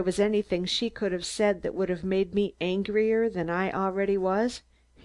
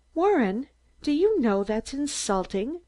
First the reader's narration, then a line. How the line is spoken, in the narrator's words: Mary exclaimed angrily